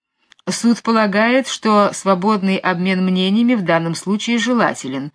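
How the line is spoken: Plain. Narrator (Russian): сказал судья

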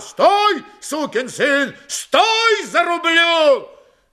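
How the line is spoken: Shouting from afar. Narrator (Russian): Григорий еще издали заорал

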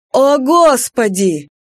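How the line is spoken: Howling. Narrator (Russian): Артис взвыл

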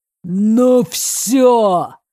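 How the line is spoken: Yelling. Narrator (Russian): заорал он

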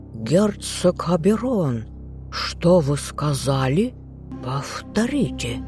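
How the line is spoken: Snakelike furious hiss. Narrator (Russian): зашипел змеем лорд Карлтон

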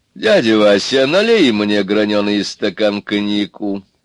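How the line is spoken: Tired and petulant. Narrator (Russian): сказал он устало и капризно

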